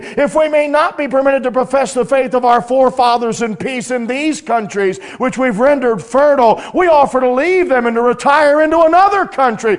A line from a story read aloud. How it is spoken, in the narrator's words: pleading for their life to the very end